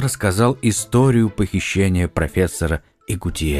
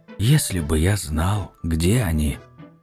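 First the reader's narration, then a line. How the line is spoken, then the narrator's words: Quiet. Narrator (Russian): Арман тихо произнес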